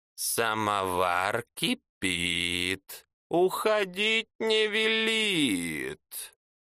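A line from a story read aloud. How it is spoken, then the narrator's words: Wheezing behind door. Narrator (Russian): просипело из-за двери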